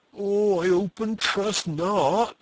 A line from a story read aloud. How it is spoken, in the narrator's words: moaned Christian